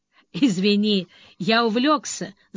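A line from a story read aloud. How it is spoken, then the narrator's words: Laughing. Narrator (Russian): засмеялся Грей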